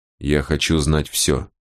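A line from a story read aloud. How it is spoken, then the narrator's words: Quiet, very calm. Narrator (Russian): тихим и очень спокойным голосом сказал Босх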